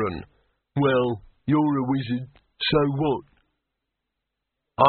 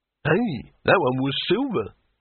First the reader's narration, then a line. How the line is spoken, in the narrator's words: exclaimed Harun